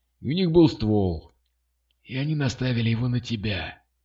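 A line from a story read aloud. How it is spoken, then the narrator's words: Hoarse grumble. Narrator (Russian): проворчал хриплый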